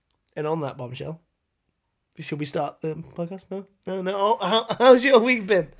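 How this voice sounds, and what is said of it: Usual voice. Nothing is said of it.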